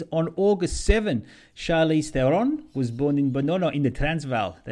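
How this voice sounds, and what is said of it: Poor put-on South African accent. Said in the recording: “That's my South African accent. ... That's terrible.”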